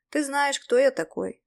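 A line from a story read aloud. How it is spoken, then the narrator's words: Tired reply. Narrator (Russian): устало ответил я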